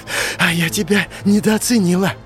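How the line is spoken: Hoarse breath, stifled laugh. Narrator (Russian): Сипло выдохнула Беляна и сдавленно рассмеялась

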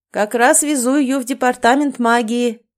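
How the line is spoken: Amplified shouted reply. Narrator (Russian): прокричал он в ответ, тоже усилив голос

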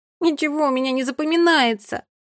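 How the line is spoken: Whimpering. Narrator (Russian): захныкала Фея

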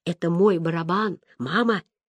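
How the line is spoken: Whispered. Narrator (Russian): шепнул Гай

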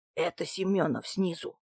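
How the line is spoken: Whispered. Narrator (Russian): прошептал Дмитрий Иванович

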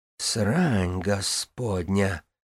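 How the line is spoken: Breathless exclamation. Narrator (Russian): выдохнула Синера

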